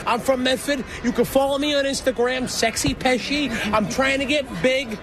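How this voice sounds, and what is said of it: Strong local Boston-area accent. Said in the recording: “Is that really your accent? ... That's how I talk. My father's from the North End.”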